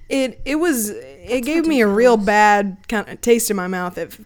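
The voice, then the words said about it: Texan-sounding drawl. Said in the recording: “sounded so Texan”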